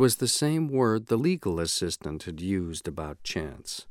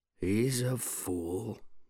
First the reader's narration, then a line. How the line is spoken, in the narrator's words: said Arthur very quietly